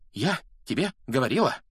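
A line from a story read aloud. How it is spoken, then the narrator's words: Breathless exhale. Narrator (Russian): выдохнула Гермиона, держась обеими руками за грудь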